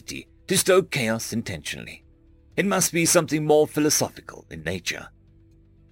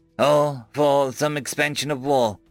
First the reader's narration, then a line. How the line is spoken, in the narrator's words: Jala chuckled